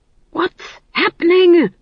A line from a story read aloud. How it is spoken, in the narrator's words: he hissed